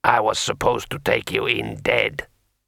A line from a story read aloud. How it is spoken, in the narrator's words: muttered Kai Sidra sullenly